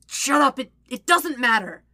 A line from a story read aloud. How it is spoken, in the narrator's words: Zuko says a little desperately